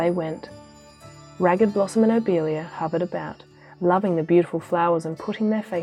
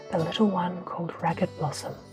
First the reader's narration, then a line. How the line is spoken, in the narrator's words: whispered the old man